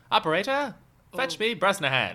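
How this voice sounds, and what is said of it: Put-on Transatlantic accent. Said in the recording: “That accent? ... that way of talking. ... Transatlantic.”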